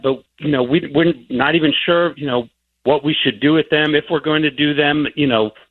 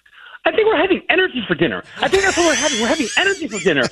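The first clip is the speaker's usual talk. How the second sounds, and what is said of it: Energetic hyped-up character voice. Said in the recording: “in your hype voice, you know, your character's voice ... that is an exhausting role to play”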